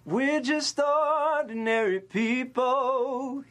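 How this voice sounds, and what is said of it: Sung imitation of another person's voice. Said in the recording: “song impersonation ... I get John Legend ... John Legend is actually one of my like kind of main vocal inspirations”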